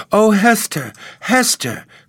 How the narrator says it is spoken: cried Miss Rosamond

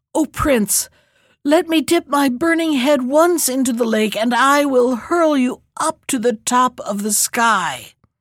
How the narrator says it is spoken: Then the dragon gasped

